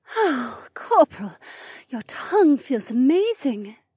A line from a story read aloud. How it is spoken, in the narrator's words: Becca gasped